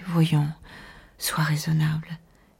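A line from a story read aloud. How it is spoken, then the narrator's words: Weary. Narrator (French): Il disait d'une voix lassée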